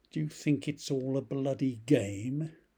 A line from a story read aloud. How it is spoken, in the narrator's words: Death growled